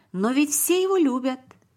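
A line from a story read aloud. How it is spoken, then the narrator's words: Exclaimed. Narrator (Russian): воскликнул Давид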